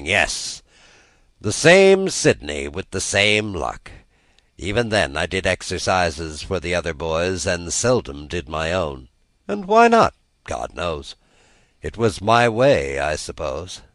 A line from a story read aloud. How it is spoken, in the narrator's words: returned the other, sighing